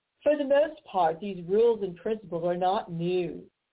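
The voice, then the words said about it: Put-on highfalutin posh accent. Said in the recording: “I'm going to use an accent that's kind of highfalutin.”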